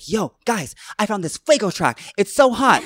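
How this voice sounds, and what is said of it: Imitates another person's voice. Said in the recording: “That impression of me was too much, but very accurate”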